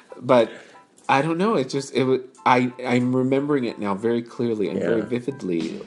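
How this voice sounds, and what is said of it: Tearful, emotional voice. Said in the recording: “Are you crying? ... I'm getting a little emotional.”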